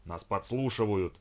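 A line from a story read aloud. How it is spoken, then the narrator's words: Stranger's growl. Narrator (Russian): прорычал незнакомец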